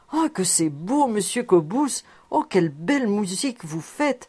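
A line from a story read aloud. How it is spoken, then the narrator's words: Exclaimed. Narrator (French): il s'écria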